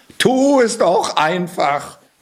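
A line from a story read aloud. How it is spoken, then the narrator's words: Cat calling out. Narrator (German): rief der Kater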